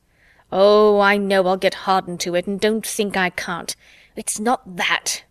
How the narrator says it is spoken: Bruce said harshly

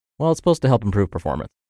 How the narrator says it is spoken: quickly muttered

